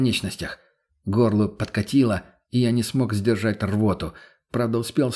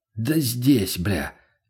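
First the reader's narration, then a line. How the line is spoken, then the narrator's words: Shaky post-adrenaline mutter. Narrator (Russian): буркнул, пребывая в адреналиновом отходнике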